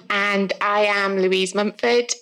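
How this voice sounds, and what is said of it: South Welsh accent. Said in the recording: “if you can't tell from my accent, I'm from South Wales”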